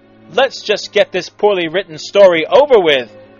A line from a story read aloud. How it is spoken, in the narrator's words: Wallace exclaimed